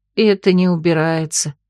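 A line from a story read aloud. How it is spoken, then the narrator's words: Sighing. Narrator (Russian): вздохнула Эбер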